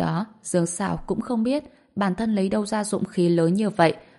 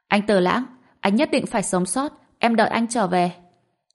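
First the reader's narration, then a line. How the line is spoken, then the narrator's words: Loud shout. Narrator (Vietnamese): Dương Sảo tiếp tục hét lớn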